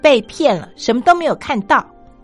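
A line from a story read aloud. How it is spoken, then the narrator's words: Loud, surprised voice. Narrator (Chinese): 观光客居然高声的说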